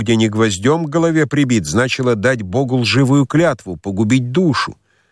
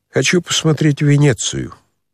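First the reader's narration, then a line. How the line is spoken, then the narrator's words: Smirk, then glum and quiet. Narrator (Russian): усмехнулся было царевич, но тотчас прибавил уныло и тихо, как будто про себя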